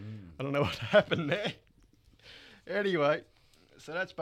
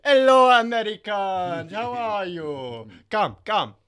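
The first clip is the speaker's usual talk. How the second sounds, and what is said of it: Put-on French drifting Middle Eastern accent. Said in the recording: “I think I just changed from a French accent to a Middle Eastern then.”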